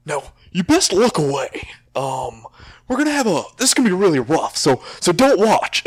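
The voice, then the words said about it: Imitates another person's voice. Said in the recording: “pretty good impression”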